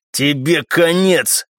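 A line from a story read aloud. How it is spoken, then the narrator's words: Low muffled growl. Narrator (Russian): глухо прорычал он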